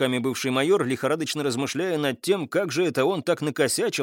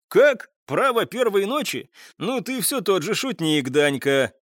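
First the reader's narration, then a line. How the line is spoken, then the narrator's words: Hearty laughter. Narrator (Russian): он расхохотался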